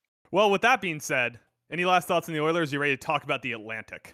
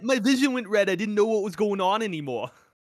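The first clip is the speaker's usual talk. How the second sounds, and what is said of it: Vague put-on accent. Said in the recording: “I don't even know what accent I'm doing”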